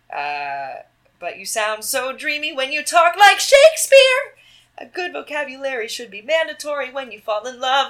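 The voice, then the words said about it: Sung imitation of another person's voice. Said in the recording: “That's just me singing, doing a Kristen Bell impression.”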